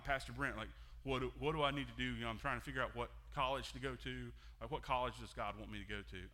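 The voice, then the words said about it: Exaggerated dopey teenager voice. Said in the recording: “that's my voice for a teenager. It's just like, duh, blah, blah.”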